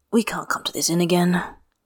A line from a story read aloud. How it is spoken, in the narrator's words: Jules Ashur murmured